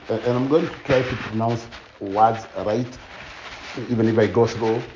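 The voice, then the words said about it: Strong deep accent. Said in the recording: “my accent is a deep accent”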